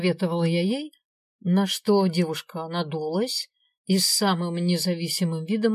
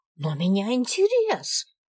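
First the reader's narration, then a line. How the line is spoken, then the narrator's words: Exclaimed. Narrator (Russian): воскликнула девица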